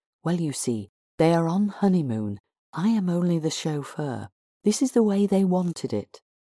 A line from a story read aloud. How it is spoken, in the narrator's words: Peter explained quietly